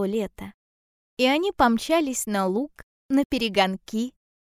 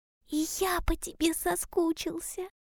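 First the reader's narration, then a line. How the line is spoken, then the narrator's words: Hedgehog whispering. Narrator (Russian): прошептал ежик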